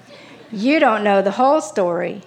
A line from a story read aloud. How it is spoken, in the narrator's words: said with a chuckle